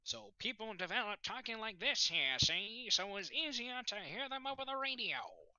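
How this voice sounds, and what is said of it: Put-on transatlantic accent, higher pitch. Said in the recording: “the transatlantic accent ... That transatlantic accent ... They raised their pitch, so you can notice the higher pitch”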